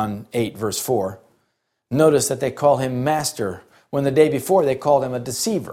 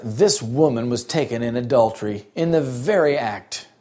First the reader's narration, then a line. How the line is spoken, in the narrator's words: they said with a certain sneer